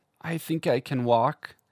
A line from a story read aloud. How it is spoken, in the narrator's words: he said in a frail voice